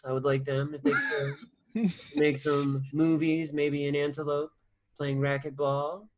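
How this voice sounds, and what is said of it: Imitates another person's voice. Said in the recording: “Your eyes become so soft when you do his impression. ... whenever the Donnie comes out.”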